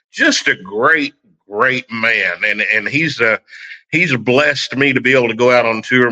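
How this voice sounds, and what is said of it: Oklahoma country twang accent. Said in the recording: “country twang. I grew up in Oklahoma. I haven't gotten rid of it at 56 years.”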